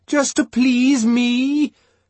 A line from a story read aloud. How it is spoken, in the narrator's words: Bernard bellowingly wheedled